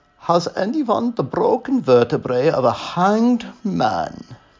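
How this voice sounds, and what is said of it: Deep male voice, Hungarian accent. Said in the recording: “came a deep masculine voice with a Hungarian accent”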